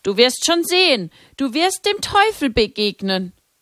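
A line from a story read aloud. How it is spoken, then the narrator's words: Voice calling from behind. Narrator (German): Hinter ihr rief eine Stimme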